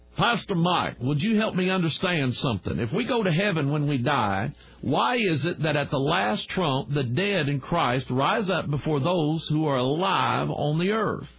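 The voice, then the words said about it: Imitated Southern drawl. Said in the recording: “I like them southern drawl people.”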